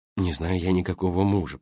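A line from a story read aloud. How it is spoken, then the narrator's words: Muttered. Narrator (Russian): пробормотал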